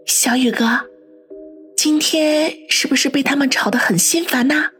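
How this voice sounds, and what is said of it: Soft quiet speaking voice. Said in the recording (Chinese): “小声的说道”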